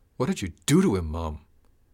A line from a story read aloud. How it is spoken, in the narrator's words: Carl blurted the question, fear tinging his voice